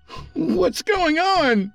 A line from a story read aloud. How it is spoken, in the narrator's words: shouted to the empty house